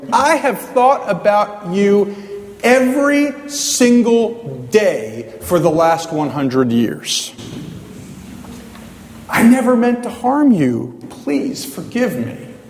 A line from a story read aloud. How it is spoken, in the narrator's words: the officer of the law exclaimed